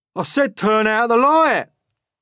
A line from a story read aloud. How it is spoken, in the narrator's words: shouted the centipede angrily